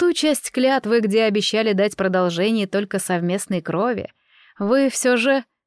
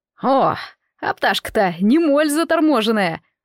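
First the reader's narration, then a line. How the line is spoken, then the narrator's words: Young boy's mocking laughter. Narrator (Russian): Расхохотался надо мной какой-то сопляк, чуть старше Рагнеды по возрасту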